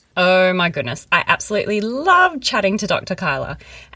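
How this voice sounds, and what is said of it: Giddy, excited voice. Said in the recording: “As you could probably hear in my giddy voice”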